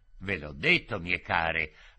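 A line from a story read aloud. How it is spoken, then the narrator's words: Caressing, insinuating voice. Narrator (Italian): ripeteva con voce carezzevole, insinuante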